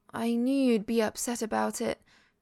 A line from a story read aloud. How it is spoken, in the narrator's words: she sighs